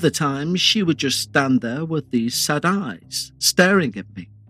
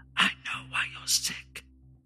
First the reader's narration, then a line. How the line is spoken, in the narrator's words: whisper